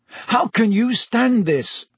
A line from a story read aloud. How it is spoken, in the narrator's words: he asked Hermione fiercely